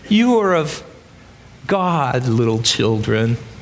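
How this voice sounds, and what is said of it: Old grandfatherly voice. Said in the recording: “Can you hear his old grandpa voice?”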